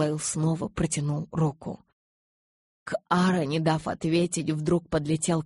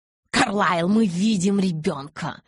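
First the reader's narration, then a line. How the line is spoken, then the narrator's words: Barking shout. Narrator (Russian): рявкнул Кай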